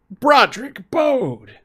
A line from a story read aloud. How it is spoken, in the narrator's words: he wheezed